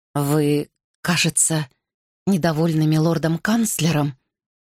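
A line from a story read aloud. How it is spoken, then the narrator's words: Trembling voice. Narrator (Russian): дрожащим голосом произнесла королева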